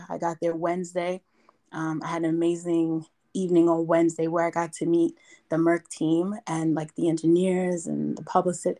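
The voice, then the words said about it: Raspy, strained voice. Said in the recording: “my voice sounds the way it does. My voice is raspy. I'm straining right now because I yelled every day I was there.”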